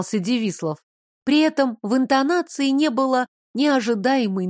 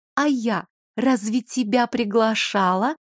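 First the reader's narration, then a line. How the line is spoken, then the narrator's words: Almost gentle question. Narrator (Russian): почти ласково уточнила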